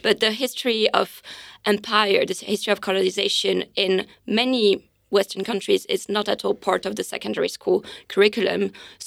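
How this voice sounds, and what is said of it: French accent. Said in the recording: “you can hear my accent, I'm French.”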